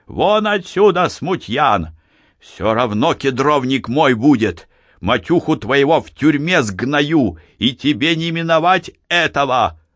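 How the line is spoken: Hoarse, breathless furious shout. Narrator (Russian): прокричал это сипло, задыхаясь от злости

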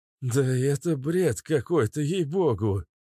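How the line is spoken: Nervous laugh. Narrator (Russian): нервно хохотнул ученый

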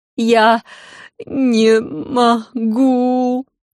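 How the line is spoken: Wailed. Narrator (Russian): провыла Серафина и вновь зашлась в рыданиях

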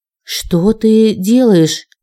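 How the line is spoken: Suddenly hoarse rasp. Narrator (Russian): прохрипела я внезапно осипшим голосом

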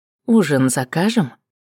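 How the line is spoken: Quiet question. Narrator (Russian): поинтересовался тихо

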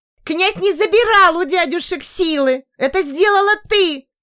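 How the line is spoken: Woman shrieking. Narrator (Russian): Завизжала женщина

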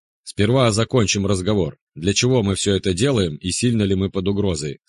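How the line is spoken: Plain. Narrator (Russian): сказал я

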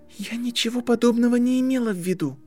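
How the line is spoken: Frightened whisper. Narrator (Russian): испуганным шепотом выдавила Гермиона

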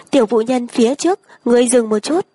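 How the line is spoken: Calling out. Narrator (Vietnamese): có người kêu lên

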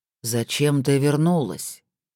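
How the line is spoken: Flat, colorless voice. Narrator (Russian): Терей бесцветным голосом произнес

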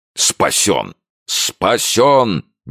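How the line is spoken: Frantic shout. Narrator (Russian): не помня себя, кричал Кеннеди

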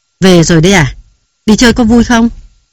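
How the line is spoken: Loud question. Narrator (Vietnamese): Nam to tiếng hỏi

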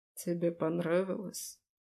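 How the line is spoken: Calm, hoarse. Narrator (Russian): Спокойно, хрипло спрашивает он

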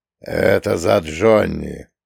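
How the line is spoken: Hoarse. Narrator (Russian): хрипло ответил Фреда

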